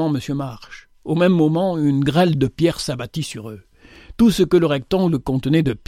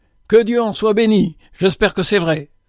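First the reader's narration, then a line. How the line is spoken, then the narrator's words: Exclaimed. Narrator (French): s'écria Henry Maxwell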